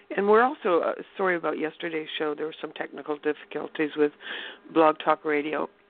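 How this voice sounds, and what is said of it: Dry, strained voice. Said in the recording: “excuse my voice, it's very dry here where I live ... I don't have a cold”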